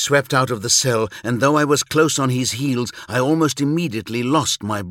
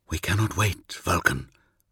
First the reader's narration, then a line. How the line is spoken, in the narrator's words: whispered